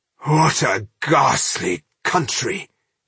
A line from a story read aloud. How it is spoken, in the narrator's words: he groaned